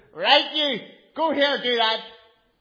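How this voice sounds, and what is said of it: Sharp, strong Belfast accent. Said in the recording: “there'd be this real strong Belfast accent, this real kind of sharp. And her language would be like darts, fiery darts.”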